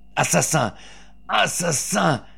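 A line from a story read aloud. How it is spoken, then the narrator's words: Shouting. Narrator (French): cria-t-il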